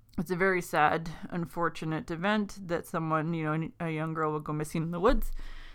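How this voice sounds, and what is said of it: Stuffed-up, congested nasal voice. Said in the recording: “I sound really stuffed up on this episode. I'm going through horrible allergy season ... you're all stuffed up and can't really breathe very well”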